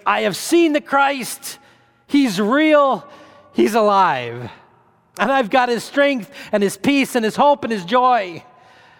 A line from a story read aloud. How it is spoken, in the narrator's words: excited and filled with joy, and you can almost hear her telling the others, shouting to the others